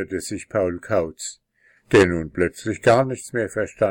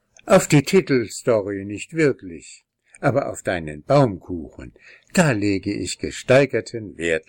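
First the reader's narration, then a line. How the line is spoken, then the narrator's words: Laughing gnome. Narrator (German): lachte der Wichtel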